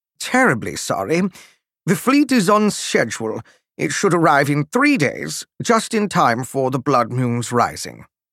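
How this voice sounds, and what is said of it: Measured British accent. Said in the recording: “His voice now had a measured British accent.”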